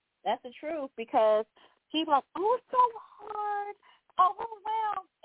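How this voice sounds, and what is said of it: High-pitched voice. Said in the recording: “as high-pitched as my voice is”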